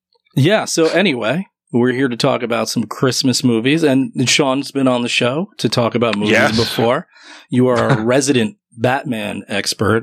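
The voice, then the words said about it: Rough, worn-out voice. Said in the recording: “my voice is gone still though ... It's rugged. ... It's a rugged voice. Doesn't match me at all.”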